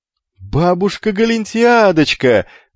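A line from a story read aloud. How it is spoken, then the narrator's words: Wild yell. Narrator (Russian): заорал он дурным голосом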